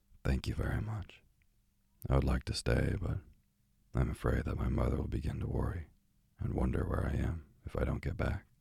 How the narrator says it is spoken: So very sadly I answered

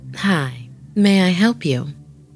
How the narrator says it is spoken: said as calmly as possible

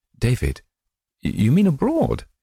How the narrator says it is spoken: she gasped

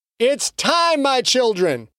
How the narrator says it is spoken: Patterson shouted over the chanting din

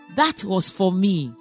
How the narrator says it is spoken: Mother Teresa said

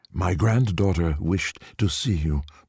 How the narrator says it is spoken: Poipoi said

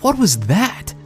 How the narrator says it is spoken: almost yelled

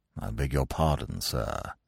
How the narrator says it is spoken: he said in a sort of hushed voice

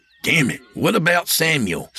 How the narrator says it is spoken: Sam snapped

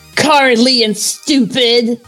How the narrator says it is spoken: The Absol spat

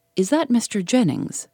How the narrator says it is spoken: she asked

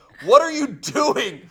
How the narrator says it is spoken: the father started yelling at me, and the mother kept saying

